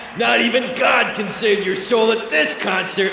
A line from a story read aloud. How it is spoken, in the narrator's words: the lead singer held out his bottle of whiskey and shouted